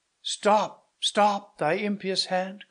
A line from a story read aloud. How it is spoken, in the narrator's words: cried Matilda